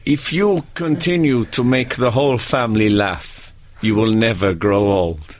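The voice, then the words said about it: Vague foreign European accent. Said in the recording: “I can't do the accent. He was foreign. I'll do the accent because it's no particular accent ... I think it's European”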